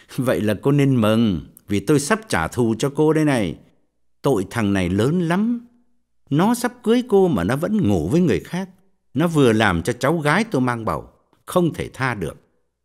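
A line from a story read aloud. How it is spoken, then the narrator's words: Sneering. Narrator (Vietnamese): Quân cười khẩy bảo cô gái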